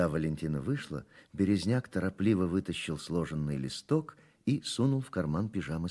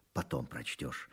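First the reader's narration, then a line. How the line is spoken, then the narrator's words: Whispered advice. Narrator (Russian): шепотком посоветовал Березняк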